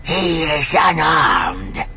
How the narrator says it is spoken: the robed alien said in his gravelly voice

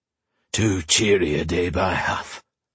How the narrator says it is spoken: Terin grunted

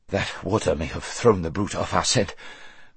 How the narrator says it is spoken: panted Bree when he had partly got his breath again

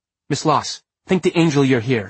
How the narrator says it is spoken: she exclaimed

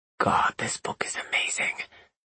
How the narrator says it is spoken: Elliot whispered

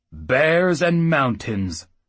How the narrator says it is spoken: Oates bellowed

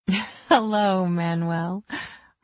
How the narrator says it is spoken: I said with a laugh

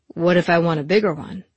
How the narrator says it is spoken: he asked

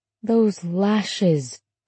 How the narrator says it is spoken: Laura said almost wistfully

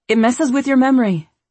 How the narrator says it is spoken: she said impatiently

